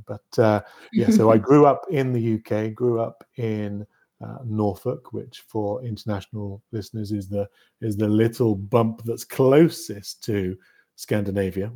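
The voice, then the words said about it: British accent. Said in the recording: “you can tell by my accent perhaps that I'm from the same sceptred isle as yourself”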